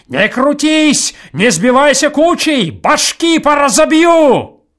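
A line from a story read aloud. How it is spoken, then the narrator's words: Loud open-mouthed shout. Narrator (Russian): он кричал, широко открыв рот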